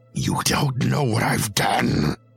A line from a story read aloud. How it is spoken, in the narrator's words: Humboldt said with a growl